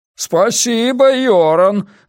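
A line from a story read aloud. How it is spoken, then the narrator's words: Shouting after someone. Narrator (Russian): закричал Стуне ей вслед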